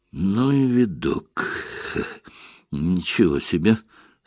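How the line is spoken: Mumbling with halting laughter. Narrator (Russian): с прерывистым смешком пробормотал Эллери

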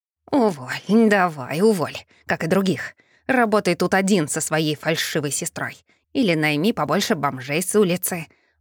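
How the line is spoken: Angry growl. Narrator (Russian): прорычал, злобно клацнув зубами

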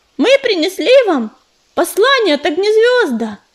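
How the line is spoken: Shouted. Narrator (Russian): прокричал Ежевика

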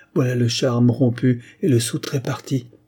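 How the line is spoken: Peasant woman's exclamation. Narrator (French): s'écria la paysanne

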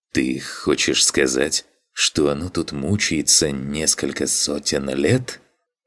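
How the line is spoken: Stunned mutter. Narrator (Russian): Ошарашенно пробормотал Макс

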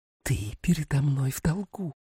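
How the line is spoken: Barely audible hiss. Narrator (Russian): прошипела Рос едва слышно

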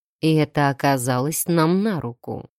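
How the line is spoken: Gloomy. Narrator (Russian): мрачно

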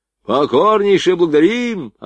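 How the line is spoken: Deafening soldiers' bark. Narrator (Russian): оглушительно рявкнули солдаты

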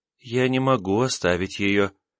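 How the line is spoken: Even quieter spirit voice. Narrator (Russian): еще более тихо произнесла воздушный дух

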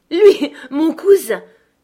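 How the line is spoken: Scornful laughing exclamation. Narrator (French): s'écria Cathy avec un rire méprisant

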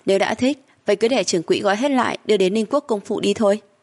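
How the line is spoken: Laughing, offhand. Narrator (Vietnamese): Khương Kỳ sững sờ, hắn đã bật cười thuận miệng nói

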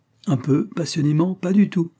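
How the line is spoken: Exclaiming. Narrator (French): s'écria-t-elle

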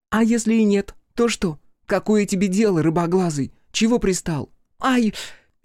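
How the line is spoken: Shrieking. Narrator (Russian): Игураси взвизгнула

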